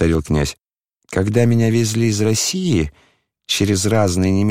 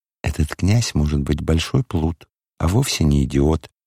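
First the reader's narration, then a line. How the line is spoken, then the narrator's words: Whisper. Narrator (Russian): шепнула она Аглае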